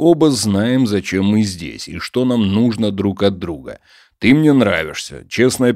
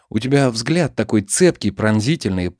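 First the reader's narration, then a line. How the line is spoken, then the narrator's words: Young woman, ingratiating. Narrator (Russian): продолжила девушка вкрадчиво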